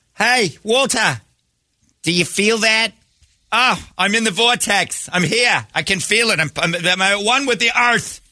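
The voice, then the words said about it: Exaggerated loud East Coast accent. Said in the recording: “usually with an accent ... your accent makes it so nobody can be at one with the earth ... Boston, New Yorkers, Philadelphians, they're screaming it”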